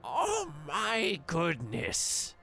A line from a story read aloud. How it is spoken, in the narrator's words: She croaks, spit dribbling from her mouth